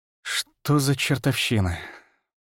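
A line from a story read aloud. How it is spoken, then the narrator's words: Muttering. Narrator (Russian): пробормотал я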